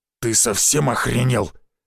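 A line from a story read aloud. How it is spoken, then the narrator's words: Growled. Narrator (Russian): прорычал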